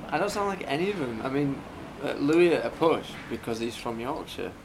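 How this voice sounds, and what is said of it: English Yorkshire accent. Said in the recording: “your voice is a big draw for the American viewers ... An English accent ... from Yorkshire”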